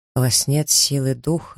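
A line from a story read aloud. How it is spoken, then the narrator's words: Plain. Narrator (Russian): сказал он наконец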